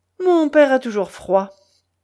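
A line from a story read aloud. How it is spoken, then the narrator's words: Curt. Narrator (French): dit sèchement le veneur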